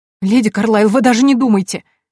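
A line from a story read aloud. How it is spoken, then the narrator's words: Sobbing. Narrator (Russian): всхлипнула Мина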